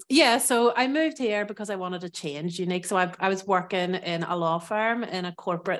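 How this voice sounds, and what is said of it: Irish accent. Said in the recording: “I am originally from Ireland, as you might hear from my accent.”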